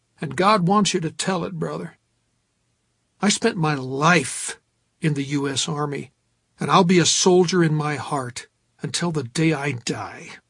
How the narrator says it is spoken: Hargis exclaimed

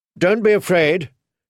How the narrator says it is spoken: she told them loudly

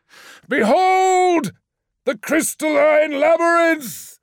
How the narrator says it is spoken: shouted Lemuel

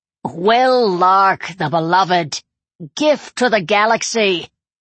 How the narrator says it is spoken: Someone at ground level echoed the shout

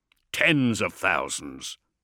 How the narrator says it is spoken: growled Columba

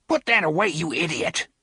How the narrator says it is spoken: he snarled

